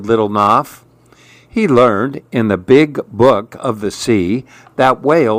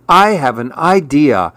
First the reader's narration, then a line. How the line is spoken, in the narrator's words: cried Little Nuff